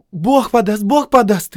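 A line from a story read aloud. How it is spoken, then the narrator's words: Frightened shout. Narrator (Russian): испуганно крикнула Надежда, побледнев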